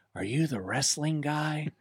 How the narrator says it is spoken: he whispers in my ear

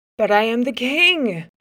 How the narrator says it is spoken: shouted

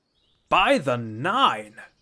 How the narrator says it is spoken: he exclaimed

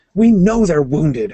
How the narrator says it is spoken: Hawat snapped

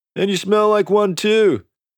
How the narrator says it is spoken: shouted another voice

